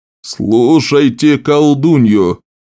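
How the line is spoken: Barking. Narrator (Russian): рявкнул на учеников Лорен

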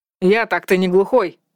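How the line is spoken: Raised voice. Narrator (Russian): повысил голос Танна и захохотал так громко и раскатисто

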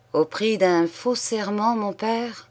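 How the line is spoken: Plain. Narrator (French): dit-il

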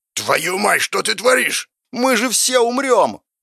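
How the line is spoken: Lust shouting. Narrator (Russian): Впервые за все время закричала похоть

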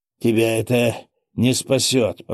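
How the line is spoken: Horrified moan. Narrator (Russian): простонал он, с ужасом

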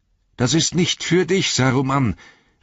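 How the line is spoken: Shrill toneless cry. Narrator (German): rief er mit schriller, tonloser Stimme

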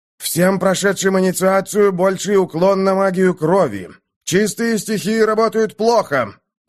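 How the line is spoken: Loud announcement. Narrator (Russian): громко объявил Мокс

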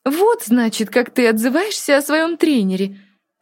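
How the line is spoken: Laughing. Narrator (Russian): смеялась Диана

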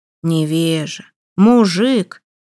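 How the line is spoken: Through gritted teeth. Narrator (Russian): процедил сквозь зубы Холмогоров

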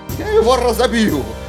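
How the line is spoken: Shout. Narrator (Russian): Прокричал он

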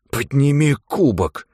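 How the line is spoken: Hissed. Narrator (Russian): прошипел Джулиан

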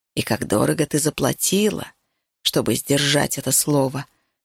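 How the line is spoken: Whisper. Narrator (Russian): шепнул Решай

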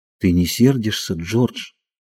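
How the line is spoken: Timid question. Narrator (Russian): Ленни спросил робко

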